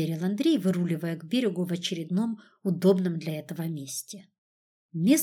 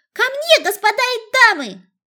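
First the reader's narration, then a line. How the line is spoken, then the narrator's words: Loud, carrying shout. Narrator (Russian): крикнула на весь остров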